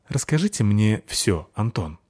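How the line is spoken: Soft, gentle. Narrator (Russian): мягко сказал Вассагов

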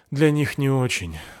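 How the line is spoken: Sigh. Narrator (Russian): вздохнул Александр Анатольевич

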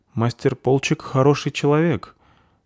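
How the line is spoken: Uncertain. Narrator (Russian): ответила девушка неуверенно

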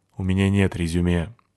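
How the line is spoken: Gloomy. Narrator (Russian): ответил я мрачно

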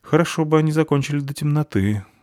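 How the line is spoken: Sighing. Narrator (Russian): вздохнула Фаль

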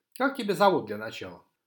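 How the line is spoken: Calm, unbothered. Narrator (Russian): Навигатор говорил так спокойно, как будто никто ни в кого не целился

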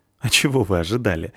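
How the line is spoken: Laughing. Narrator (Russian): рассмеялся Бардрин

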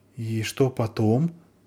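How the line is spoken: Frightened question. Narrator (Russian): спросила испуганно Заверушка

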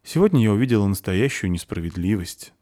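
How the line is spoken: Sighing. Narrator (Russian): вздохнула Заверушка

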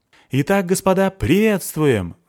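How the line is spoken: Shouting into microphone. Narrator (Russian): закричал он в микрофон

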